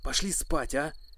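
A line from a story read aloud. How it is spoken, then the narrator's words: Whisper. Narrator (Russian): прошептал я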